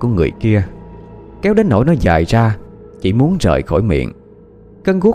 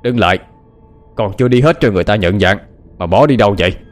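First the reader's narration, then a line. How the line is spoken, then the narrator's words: Harsh shout. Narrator (Vietnamese): tiếng quát tháo của tên mặt ngựa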